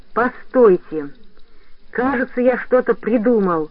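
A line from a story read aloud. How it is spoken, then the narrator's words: Joyful boy's exclamation. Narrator (Russian): радостно воскликнул мальчик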